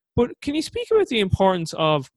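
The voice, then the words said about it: Excited, high-pitched voice. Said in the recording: “my voice went so high pitched there... It's because I'm excited.”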